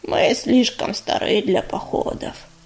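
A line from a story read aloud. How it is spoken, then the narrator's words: Creaky female voice. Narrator (Russian): проскрипела горностайка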